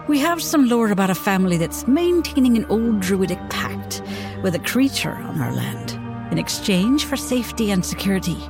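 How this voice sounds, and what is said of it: Attempted Irish accent. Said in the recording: “I'm going to do this one in my attempted an Irish accent.”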